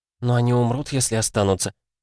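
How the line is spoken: Whisper. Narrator (Russian): шепнула Лита

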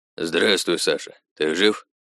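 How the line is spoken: Flat colorless voice. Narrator (Russian): Знакомый голос звучал даже не устало, а как-то совсем бесцветно

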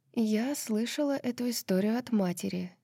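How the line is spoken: Quiet. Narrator (Russian): тихо сказала она

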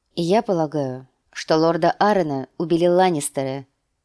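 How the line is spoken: Plain. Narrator (Russian): ответила

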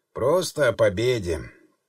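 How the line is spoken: Calm reply, master. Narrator (Russian): также спокойно ответил хозяин

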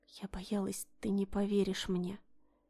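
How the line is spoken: Tearful whisper. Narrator (Russian): прошептала она со слезами на глазах

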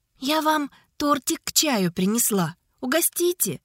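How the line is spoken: Sweet, cooing voice. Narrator (Russian): Умильным голоском произнесла она

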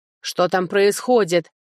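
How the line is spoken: Lord barking. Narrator (Russian): рявкнул лорд

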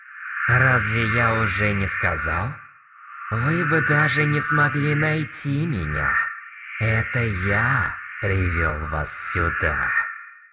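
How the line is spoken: Muttering lich. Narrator (Russian): пробормотал лич

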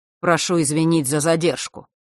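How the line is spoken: Dry male voice. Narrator (Russian): сухо произнес сын Острогора

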